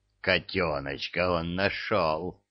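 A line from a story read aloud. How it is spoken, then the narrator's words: Growled. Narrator (Russian): прорычала правая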